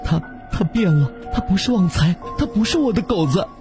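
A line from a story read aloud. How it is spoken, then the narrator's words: Tearful complaint. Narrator (Chinese): 梅姨向金姐等人哭诉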